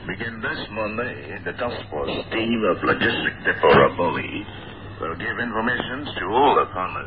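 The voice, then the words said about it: Local Indonesian-accented English. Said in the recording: “What a fascinating local English accent there.”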